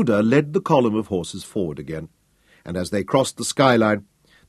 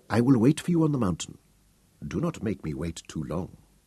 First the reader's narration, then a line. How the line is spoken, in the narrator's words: whispered